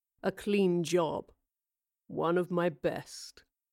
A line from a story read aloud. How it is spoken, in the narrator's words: he said in a low, satisfied voice